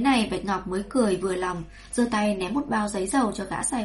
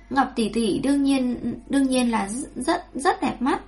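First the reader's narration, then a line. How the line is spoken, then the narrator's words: Embarrassed stammering. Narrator (Vietnamese): Tiểu Lục Nhi kia bỗng dưng đỏ mặt, ngượng ngùng, lắp bắp nói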